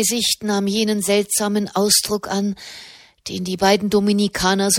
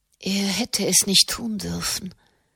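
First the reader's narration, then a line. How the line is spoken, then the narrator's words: Murmur. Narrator (German): murmelte sie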